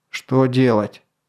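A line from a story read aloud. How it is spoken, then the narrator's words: Angry question. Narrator (Russian): зло спросил Эрл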